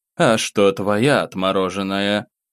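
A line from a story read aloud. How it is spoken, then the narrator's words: Gloomy snort. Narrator (Russian): Морозов мрачно хмыкнул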